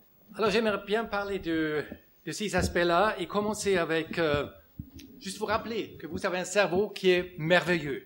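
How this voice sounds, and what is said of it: German accent speaking French. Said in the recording (French): “Un Allemand qui parle avec un accent en français, c'est toujours un peu dur. ... Mon accent est encore plus dur parce que j'ai appris le français en Suisse romande.”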